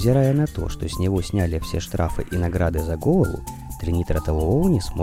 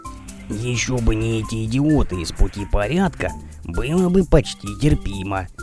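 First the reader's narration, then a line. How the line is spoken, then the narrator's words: Grumbling. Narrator (Russian): проворчал Хаусит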